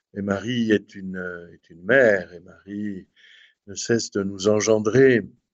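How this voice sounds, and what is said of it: Southern French accent. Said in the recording (French): “comme vous l'entendez à mon accent, évidemment, je suis un homme du Midi et du sud de la France”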